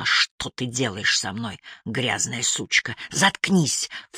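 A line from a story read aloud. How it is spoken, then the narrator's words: Hissed. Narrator (Russian): в тон ему прошипела я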